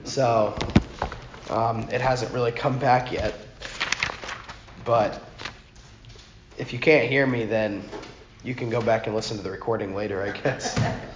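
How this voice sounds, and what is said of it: Hoarse, quiet, strained voice. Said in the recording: “I've lost my voice. I pretty much lost my voice ... this is about as loud as I'm going to get today.”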